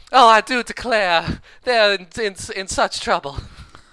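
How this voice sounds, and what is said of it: Put-on Southern Belle accent. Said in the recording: “doing her Southern Belle accent”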